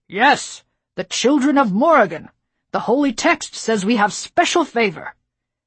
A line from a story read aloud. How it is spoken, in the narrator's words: Another lord called out